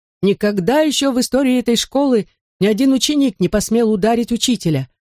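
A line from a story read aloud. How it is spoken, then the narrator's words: Squeaky voice. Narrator (Russian): пропищал мистер Кардинале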